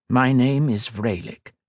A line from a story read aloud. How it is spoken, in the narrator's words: he replied